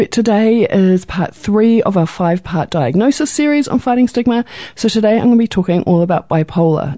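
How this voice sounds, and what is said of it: Fuzzy, just-woken-up sounding voice. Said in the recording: “my voice isn't a little too fuzzy today ... a little bit of sinus ... that sounding like you've just woken up sound all day”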